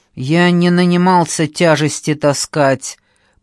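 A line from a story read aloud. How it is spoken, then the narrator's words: Grumbling. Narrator (Russian): проворчал Лёлик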